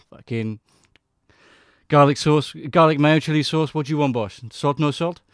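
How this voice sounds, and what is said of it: Mixed Armenian and Yorkshire put-on accent. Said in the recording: “did you just do like an Armenian accent and a Yorkshire accent at once?”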